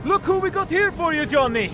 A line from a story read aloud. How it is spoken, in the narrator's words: Thor shouted